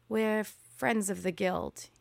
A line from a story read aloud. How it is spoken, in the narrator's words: he said